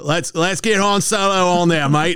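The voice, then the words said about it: Mel Gibson Australian accent. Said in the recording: “Mel Gibson Australian accent”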